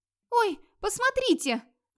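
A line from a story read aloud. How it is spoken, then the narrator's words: Sudden shriek. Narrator (Russian): вдруг взвизгнула Ингерит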